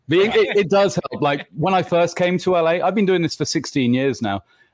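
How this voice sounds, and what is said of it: English accent. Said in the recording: “the English accent, though. The English accent will always”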